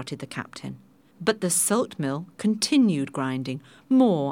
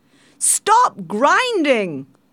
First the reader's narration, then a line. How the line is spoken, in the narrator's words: shouted the captain